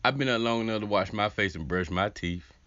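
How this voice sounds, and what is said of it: Groggy just-woken-up voice. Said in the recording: “I've been up for 20 minutes now... Can you hear it in my voice?”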